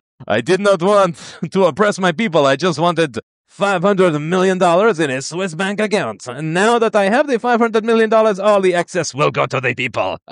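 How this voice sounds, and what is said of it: Weird French-influenced African accent. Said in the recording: “there's a little bit of French influence, and that's what I was trying to capture in that really, really weird accent.”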